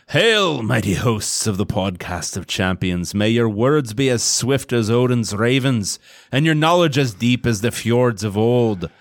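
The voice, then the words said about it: Put-on Norse-style accent. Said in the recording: “This is the one you have to do in the ... Accent.”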